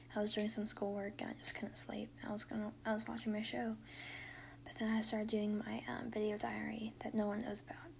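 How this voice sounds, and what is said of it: Tired, strained voice giving out. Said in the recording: “my voice was giving out, man. My throat hurts just because I'm tired.”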